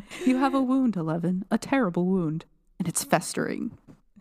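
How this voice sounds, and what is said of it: Brenner impression. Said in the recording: “I don't think I can do a Brenner impression... You want me to do it?”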